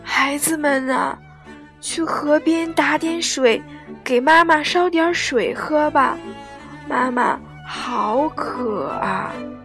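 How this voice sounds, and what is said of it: Weak, frail voice. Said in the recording (Chinese): “用虚弱的声音说”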